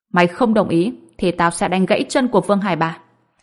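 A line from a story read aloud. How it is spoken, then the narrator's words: Cold. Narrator (Vietnamese): Ông Phi lạnh lùng nói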